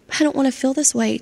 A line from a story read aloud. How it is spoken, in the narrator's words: Charlie sobbed